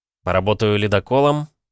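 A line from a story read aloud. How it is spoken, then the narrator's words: Amused snort. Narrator (Russian): хмыкнул я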